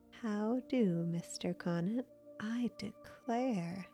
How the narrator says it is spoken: Grandma chuckled

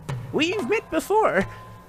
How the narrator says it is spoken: squeaked the excitable Diggle

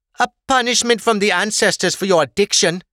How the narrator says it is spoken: his partner spat

